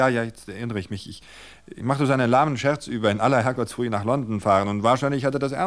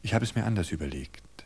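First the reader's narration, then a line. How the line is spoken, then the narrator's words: Calm. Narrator (German): sagte er ruhig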